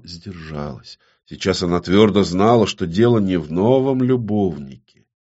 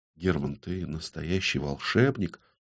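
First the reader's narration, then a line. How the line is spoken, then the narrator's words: Attempted whisper. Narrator (Russian): Ксана хотела прошептать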